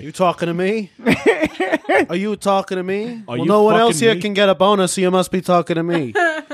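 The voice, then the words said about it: Robert De Niro impression. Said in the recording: “I wish I could do a Robert De Niro impression, but I can't.”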